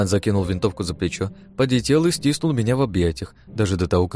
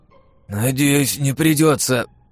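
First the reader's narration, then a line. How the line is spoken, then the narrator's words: Hoarse rasp. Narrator (Russian): прохрипел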